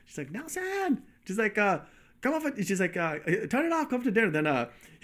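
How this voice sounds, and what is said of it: Put-on thick Chinese accent. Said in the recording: “she had a thick Chinese accent”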